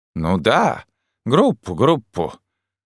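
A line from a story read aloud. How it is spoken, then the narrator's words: Grumbling. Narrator (Russian): заворчал трактирщик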